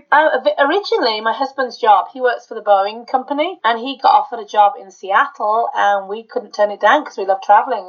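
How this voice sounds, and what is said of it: Birmingham English accent. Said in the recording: “now I have a Birmingham accent”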